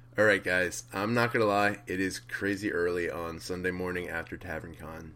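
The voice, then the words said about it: Groggy, low, tired voice. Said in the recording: “tell by my voice ... make it sound less groggy and kind of low ... I somehow doubt that I'll even get close to my normal sounding voice because I am so thrashed”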